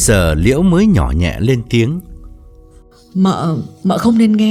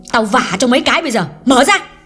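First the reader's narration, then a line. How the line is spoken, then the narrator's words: Angry loud shout. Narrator (Vietnamese): Hương trợn mắt quát lớn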